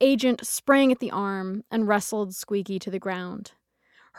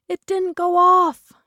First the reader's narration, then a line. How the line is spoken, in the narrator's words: she shrieked